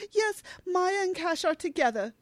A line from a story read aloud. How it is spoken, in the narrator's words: Gemma blurts out